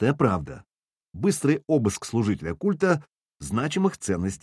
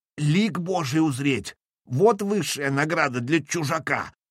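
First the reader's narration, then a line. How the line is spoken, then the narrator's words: Wheezing voice. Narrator (Russian): просипел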